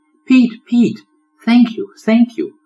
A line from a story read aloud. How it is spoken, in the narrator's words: the tiny turtle exclaimed